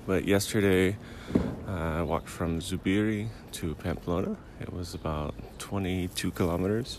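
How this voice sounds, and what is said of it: Lower, sleepy just-woke-up voice. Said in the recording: “my voice is a little lower... I just woke up about 20 minutes ago, so I'm still a little sleepy-eyed”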